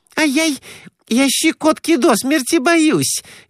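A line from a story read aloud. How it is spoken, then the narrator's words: Shrieking. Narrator (Russian): визжала та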